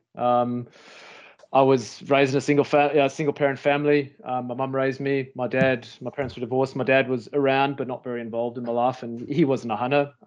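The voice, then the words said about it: South African accent. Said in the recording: “as you can probably tell from the accent, I'm not a native Queenslander or native Australian. Born in South Africa.”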